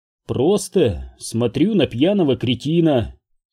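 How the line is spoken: Calm. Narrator (Russian): спокойно сообщил я

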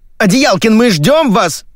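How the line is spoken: Yelling in ear. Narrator (Russian): завопили в другом ухе

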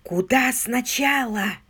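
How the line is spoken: Whisper. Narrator (Russian): прошептала она

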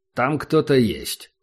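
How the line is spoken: Plain. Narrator (Russian): сказал

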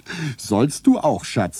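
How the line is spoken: Laughing. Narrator (German): sagte ich lachend

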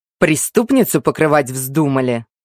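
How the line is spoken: Angry growl. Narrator (Russian): Лорд Орхин злобно рыкнул

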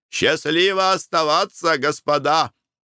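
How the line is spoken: Shouting. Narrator (Russian): крикнул им

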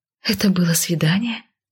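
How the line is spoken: Breathless. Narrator (Russian): выдохнула я

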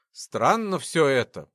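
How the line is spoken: Grumble. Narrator (Russian): проворчал разведчик

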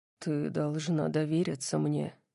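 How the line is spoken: Soft. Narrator (Russian): мягко сказал

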